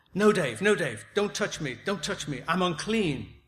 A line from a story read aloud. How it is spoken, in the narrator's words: He recoiled sharply and exclaimed